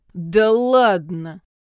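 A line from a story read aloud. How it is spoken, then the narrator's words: Growl amid laughter. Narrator (Russian): прорычал Джун под гогот громил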